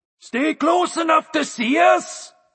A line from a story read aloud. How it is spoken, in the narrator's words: bellowed to them through the fog